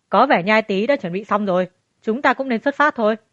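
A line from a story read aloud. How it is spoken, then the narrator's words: Laughing. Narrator (Vietnamese): Hắn bật cười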